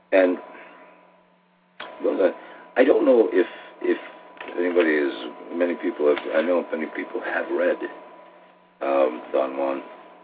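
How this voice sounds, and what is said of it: Hoarse voice recovering from laryngitis. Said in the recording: “I'm still recuperating from my laryngitis, and if I'm pausing here”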